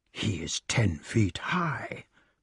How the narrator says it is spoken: hissed Merlin

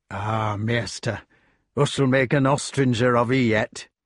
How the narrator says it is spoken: Hob said gruffly

